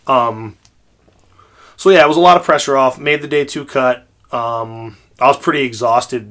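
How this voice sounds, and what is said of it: Slightly hoarse voice. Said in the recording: “I'm sounding a little hoarse and coughing today”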